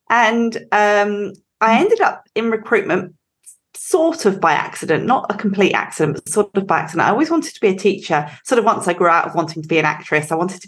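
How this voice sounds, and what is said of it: English accent. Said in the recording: “I grew up in England, as you can probably tell ... can't shake the accent”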